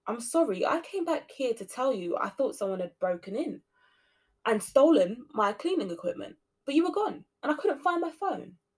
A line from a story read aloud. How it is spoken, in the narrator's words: she exclaimed